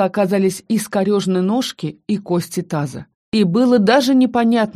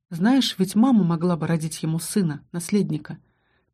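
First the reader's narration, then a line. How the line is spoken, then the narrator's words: Sad telepathic voice. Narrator (Russian): Ментальный голос Аскани звучал грустно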